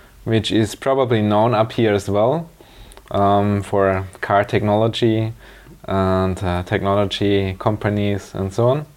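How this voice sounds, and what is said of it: Slight German accent in English. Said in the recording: “your accent is a bit foreign ... I'm German. I'm from the south of Germany”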